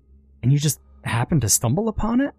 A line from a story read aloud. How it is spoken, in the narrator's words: Her voice hinted at disbelief